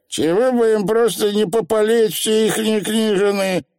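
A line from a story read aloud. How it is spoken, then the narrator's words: Grumbling. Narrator (Russian): проворчало невидимое колено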